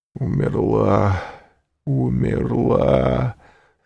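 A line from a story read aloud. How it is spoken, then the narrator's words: Anguished moaning. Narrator (Russian): стонал Вильфор в пароксизме душевной муки, тем более раздирающей, что она была неизведанной, новой, неслыханной для этого стального сердца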